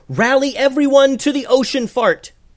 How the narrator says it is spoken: yelled

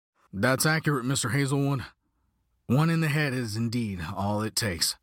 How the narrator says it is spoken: grumbled the colonel

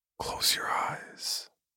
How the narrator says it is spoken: Chuck whispered to me

